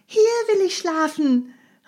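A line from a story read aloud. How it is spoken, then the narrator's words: Calling down. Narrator (German): rief Heidi hinunter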